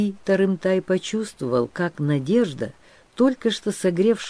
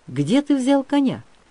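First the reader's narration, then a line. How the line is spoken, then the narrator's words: Cheered-up voice asking. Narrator (Russian): повеселевшим голосом спросил Бий Тарымтай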